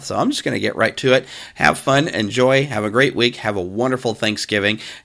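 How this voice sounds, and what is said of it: Scratchy, strained voice. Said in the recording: “you can hear my voice just getting scratchier the more I try to open my mouth”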